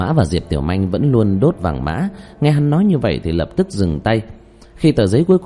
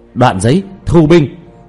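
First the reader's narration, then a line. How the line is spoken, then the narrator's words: Loud shout. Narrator (Vietnamese): Diệp Thiếu Dương lớn tiếng kêu lên ra bên ngoài cốc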